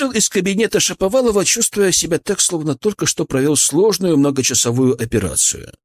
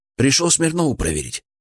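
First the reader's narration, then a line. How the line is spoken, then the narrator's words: Quiet question. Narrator (Russian): спросил тихо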